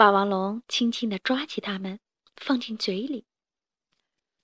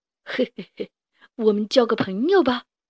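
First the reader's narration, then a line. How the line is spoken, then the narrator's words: Smiling. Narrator (Chinese): 他们笑眯眯地说着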